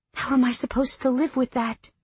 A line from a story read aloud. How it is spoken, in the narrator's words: I whispered